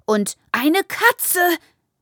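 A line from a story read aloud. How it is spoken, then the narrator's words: Shrill screech. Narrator (German): kreischt das eine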